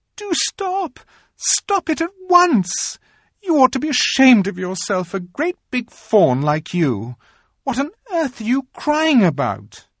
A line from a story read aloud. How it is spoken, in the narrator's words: bawled Lucy in his ear